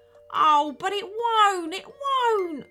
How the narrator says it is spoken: wailed the captain

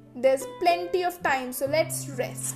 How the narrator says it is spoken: said the thieves

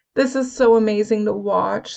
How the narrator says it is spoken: Stormy sighed

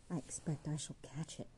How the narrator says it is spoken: murmured

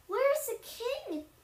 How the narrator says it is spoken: many of them cried

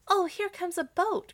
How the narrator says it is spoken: cried Gretel

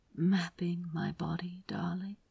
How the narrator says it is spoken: Aziraphale murmured

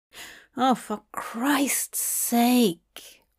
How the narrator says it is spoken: Hop mumbled

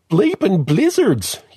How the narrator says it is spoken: yelps Orphan Agnes

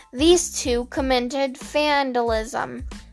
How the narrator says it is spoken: Sam said through a chuckle

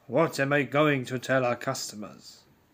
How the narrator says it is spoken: He growled

